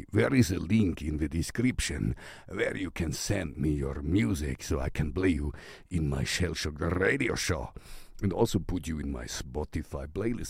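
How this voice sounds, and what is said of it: Put-on Russian accent. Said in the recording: “I don't know why I have this Russian accent. ... Sometimes I do that.”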